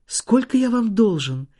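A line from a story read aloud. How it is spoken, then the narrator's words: Trembling father's question. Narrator (Russian): дрогнувшим голосом спросил отец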